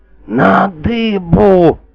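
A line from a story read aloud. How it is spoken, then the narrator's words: Sovereign's terrible wheeze. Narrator (Russian): Страшным голосом просипел государь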